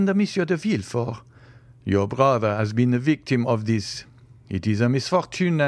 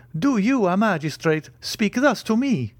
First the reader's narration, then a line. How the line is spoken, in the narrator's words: cried